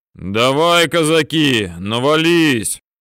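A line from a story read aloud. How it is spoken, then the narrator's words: Booming bass. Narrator (Russian): гудел басом урядник Носов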